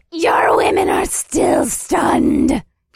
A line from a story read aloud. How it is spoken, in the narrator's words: shrieked